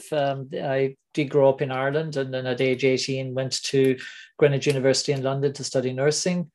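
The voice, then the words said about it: Mixed Irish, Anglo-American, Australian accent. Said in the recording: “I have an Irish, Anglo-American, Australian accent”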